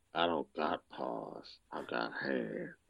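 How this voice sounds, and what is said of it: Imitates another person's voice. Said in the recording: “could do a Vin Diesel voice.”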